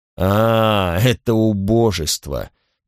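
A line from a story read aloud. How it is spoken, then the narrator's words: Mocking. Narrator (Russian): насмешливо прокомментировал Флорин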